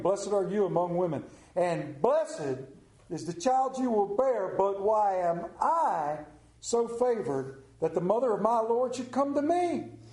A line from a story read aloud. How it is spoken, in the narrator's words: In a loud voice, exclaimed